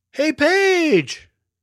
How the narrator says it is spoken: yelled Elias

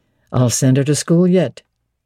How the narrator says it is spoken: he said

